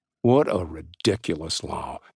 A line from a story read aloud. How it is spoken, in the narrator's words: Jake mumbled